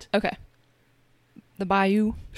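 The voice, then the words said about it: Put-on Louisiana accent. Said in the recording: “the best Louisiana accent ... Wow, that's pretty good.”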